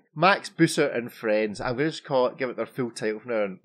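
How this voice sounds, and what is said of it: Broad Glaswegian accent. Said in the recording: “a person with a broad Glaswegian accent”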